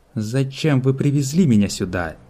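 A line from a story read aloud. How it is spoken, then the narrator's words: Angry question. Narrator (Russian): зло спросила Сиона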